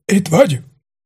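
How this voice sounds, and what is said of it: Weak, feeble voice. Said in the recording (Hungarian): “gyenge hangon”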